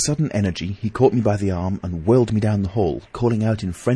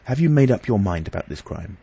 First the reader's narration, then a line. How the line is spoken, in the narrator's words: I asked earnestly